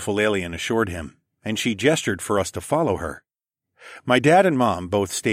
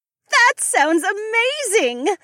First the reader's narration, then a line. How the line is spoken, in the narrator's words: Becca squealed